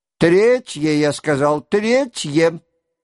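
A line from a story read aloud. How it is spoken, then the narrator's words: Prince's short shout. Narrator (Russian): коротко крикнул князь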